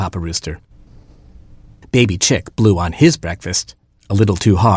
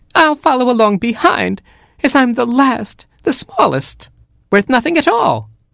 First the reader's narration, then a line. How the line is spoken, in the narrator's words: whimpered Baby Chick